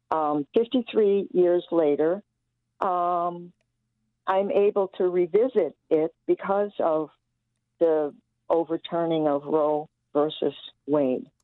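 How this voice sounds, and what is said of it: Emotional, slightly choked-up voice. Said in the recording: “getting a little emotional here”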